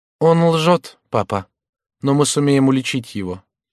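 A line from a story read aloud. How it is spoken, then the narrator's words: Calm. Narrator (Russian): Жанна, узнав ответ мужа, не рассердилась и спокойно сказала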